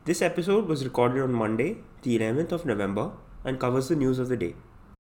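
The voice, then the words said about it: Congested voice with a cold. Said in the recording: “Sorry about the voice quality today, I've just come down with a bit of a cold.”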